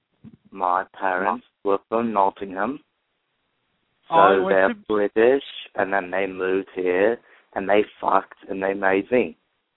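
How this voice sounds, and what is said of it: British accent. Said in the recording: “you still have the accent ... British accent”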